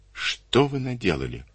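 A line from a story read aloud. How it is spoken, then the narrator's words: Quiet question. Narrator (Russian): тихо спросила женщина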